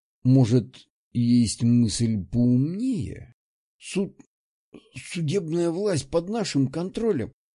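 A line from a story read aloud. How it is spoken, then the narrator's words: Strained, struggling. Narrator (Russian): Выдавил Михаил, пытаясь вырваться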